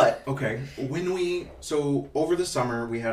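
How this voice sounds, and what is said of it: Usual voice. Nothing is said of it.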